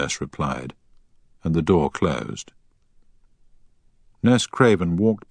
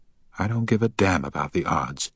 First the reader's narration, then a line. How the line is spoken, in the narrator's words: she said